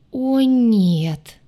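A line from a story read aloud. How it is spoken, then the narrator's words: Groaning in unison. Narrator (Russian): Мы с Дваром в умилительном единстве застонали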